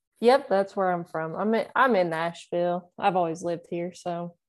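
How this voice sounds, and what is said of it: Southern Tennessee accent. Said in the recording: “the accent gives you away, right? A little bit. ... sometimes people ask if I'm from Alabama ... Is there an Alabama twang? ... Apparently my accent's just a little more present”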